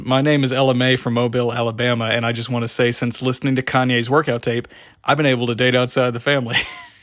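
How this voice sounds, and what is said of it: Put-on Southern US accent. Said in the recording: “This girl with a southern accent says”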